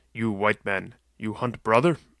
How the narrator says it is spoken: Cain snarled

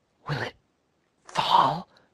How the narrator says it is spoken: whispered the lobbyist

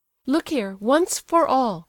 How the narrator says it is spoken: cried Aglaya, boiling over

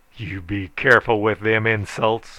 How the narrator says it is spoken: I roared menacingly

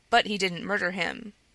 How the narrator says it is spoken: Alyosha interrupted rather sharply

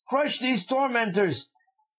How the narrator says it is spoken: cried to the mountain

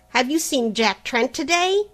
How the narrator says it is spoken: the latter cried

